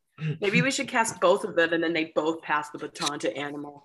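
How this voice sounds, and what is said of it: Usual voice. Nothing is said of it.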